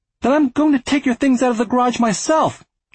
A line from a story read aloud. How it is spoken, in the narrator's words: Arthur cried